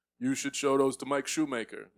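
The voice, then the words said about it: Imitates another person's voice, poorly. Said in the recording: “my Colin impression ... that's not ... good. ... Not great. ... You got to work on that. ... It's not a good one.”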